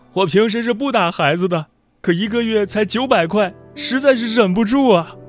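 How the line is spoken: Sobbing bitterly. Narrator (Chinese): 这位母亲痛哭起来说

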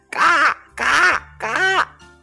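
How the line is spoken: Quacking. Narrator (Chinese): 马拉先生嘎嘎叫道

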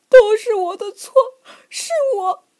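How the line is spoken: Crying. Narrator (Chinese): 他哭着说

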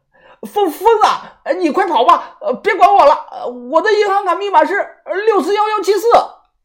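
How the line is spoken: Shouting. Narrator (Chinese): 豆芽仔……冲着我喊

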